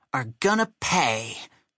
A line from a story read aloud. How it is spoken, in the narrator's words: Chuck added fiercely